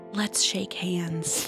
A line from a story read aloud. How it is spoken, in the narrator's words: One boy very gently said